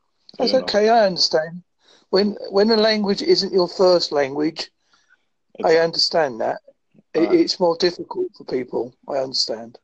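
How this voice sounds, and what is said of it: Strong Essex English accent. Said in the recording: “My accent's quite strong as well. I'm originally come from Essex, but I now live in Devon.”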